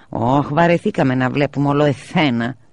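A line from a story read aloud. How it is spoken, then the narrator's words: Grumbling. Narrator (Greek): γκρίνιαζε ο Νούλης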